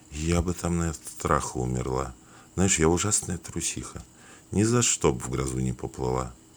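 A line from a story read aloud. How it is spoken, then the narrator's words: Quiet after a sigh. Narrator (Russian): вздохнув, сказала тихо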